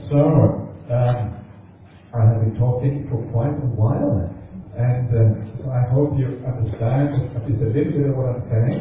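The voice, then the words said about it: Fast speech with unfamiliar accent. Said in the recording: “you talk too fast, please talk more slowly ... You have a strange accent.”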